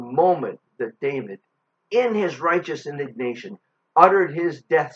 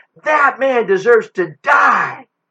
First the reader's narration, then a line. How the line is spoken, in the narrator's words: Without hesitation, he exclaimed